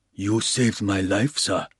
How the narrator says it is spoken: said softly

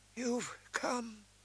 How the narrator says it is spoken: whispered faintly, lips barely moving

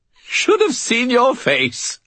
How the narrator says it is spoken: Bob said, still twitching with muffled laughter

